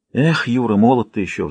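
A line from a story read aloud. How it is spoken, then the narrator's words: Sighing, official. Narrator (Russian): вздохнул заместитель председателя конторы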